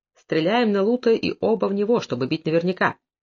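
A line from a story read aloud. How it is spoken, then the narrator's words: Quiet, controlled voice. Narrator (Russian): сердце забилось бешено, но, овладев собой, он тихо сказал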